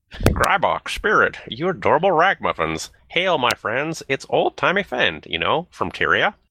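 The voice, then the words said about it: Old person voice. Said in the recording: “my best old person impression”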